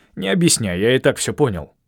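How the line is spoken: Grumbling. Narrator (Russian): проворчал он

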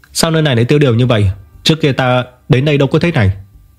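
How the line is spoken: Smiling question. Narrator (Vietnamese): hắn mỉm cười hỏi

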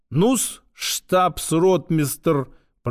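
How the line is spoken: Condescending drawl. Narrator (Russian): Протянул он мое звание, словно сам его мне пожаловал

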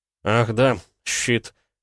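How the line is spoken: Mutter. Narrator (Russian): пробормотал

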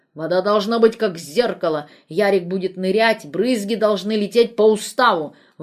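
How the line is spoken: Grumbling. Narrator (Russian): ворчал

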